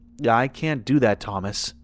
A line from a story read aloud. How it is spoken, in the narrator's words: said calmly